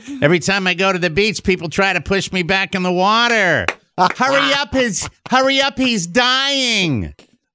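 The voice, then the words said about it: Accurate Louie Anderson impression. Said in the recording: “really, really, really a good impression... A great Louis... Louis Anderson's easy to do... it was very accurate”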